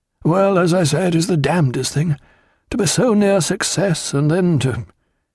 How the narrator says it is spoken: Stephen said hesitantly

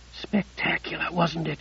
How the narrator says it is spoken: She breathed

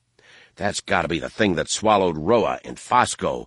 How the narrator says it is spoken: Han growled to the Rin

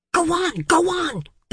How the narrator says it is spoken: the clerk whispered, sweating

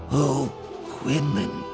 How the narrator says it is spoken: she said brokenly, aching with compassion

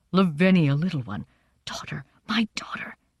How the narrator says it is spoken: he whispered

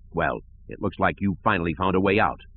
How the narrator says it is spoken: Slish Fondine said in an angry voice

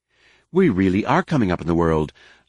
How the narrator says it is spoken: Leia said in the same unflappable tone

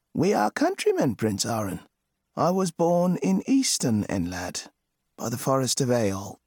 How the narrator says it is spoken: a grey-haired man with a kindly look, who said to him at last

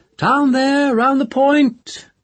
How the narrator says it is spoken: A sailor boy called out, clear and sweet

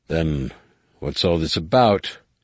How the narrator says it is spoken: Boris snarled

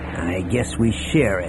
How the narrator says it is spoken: Han said in a rankled tone

